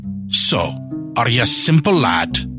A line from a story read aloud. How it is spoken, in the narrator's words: He snapped